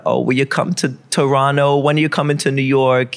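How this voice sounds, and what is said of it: Put-on Jewish New York accent. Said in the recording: “that's my typical Jewish New York accent.”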